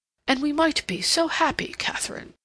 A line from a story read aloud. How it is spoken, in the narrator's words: he exclaimed impulsively